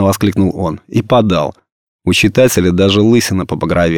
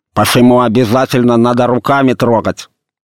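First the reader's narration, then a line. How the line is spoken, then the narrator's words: Lisping shout. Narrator (Russian): закричал он шепеляво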